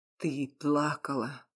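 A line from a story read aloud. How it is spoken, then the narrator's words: Slightly hoarse voice. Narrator (Russian): чуть хриплым голосом сказал он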